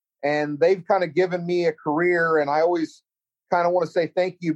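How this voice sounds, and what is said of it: Central Texas accent. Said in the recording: “I don't think I have a bad Texas accent, but I grew up in Central Texas”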